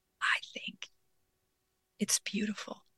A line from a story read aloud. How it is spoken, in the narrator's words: she whispered